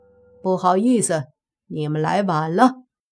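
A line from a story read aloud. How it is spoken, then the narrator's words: Smiling. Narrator (Chinese): 莫凡随即笑着说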